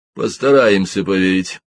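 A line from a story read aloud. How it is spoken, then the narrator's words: Dry remark. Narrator (Russian): сухо заметил Ребус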